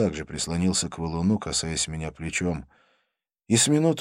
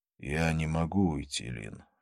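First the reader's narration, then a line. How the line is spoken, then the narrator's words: Sighing. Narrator (Russian): вздохнул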